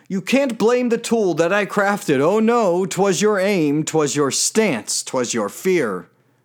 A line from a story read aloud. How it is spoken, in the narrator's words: She shouted right back at her peer